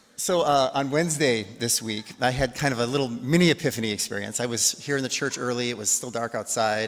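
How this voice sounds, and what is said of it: Slightly rough, unsteady voice. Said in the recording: “I'm feeling better, but my voice is still iffy”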